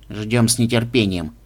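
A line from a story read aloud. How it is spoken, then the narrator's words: Gloomy reply, mouse. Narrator (Russian): мрачно отозвался мышь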